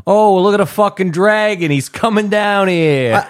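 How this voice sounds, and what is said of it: Put-on New Jersey accent. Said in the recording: “like a Jersey accent ... Maybe not a Jersey accent.”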